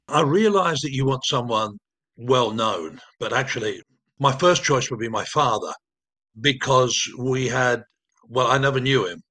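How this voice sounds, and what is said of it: Soft Plymouth English accent. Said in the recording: “his soft Plymouth accent”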